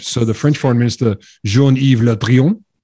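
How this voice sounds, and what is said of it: Put-on French accent. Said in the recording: “That is a great French foreign minister accent.”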